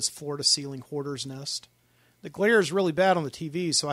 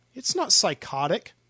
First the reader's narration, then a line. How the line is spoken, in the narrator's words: he snapped